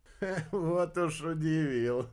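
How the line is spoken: Laughing. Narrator (Russian): рассмеялся Кайл

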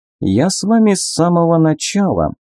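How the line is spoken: Sad smiling voice. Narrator (Russian): печально улыбнулся

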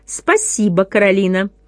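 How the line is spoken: Cold reply. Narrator (Russian): холодно ответила другая мама

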